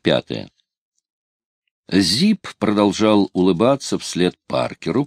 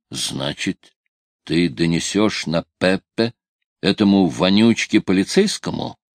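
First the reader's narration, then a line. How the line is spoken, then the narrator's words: Through gritted teeth. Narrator (Russian): процедил он сквозь зубы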